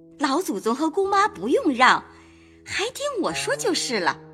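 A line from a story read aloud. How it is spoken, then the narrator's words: Laughing. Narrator (Chinese): 凤姐儿笑道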